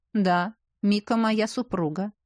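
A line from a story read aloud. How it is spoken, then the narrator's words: Calm. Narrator (Russian): спокойно произнес Ивар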